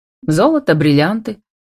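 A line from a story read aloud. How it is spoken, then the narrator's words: Snorting mimicry. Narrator (Russian): хмыкнул Демьяновский с интонацией Никулина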